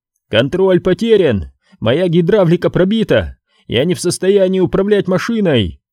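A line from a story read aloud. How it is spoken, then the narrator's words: Yelling. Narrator (Russian): заорал Дил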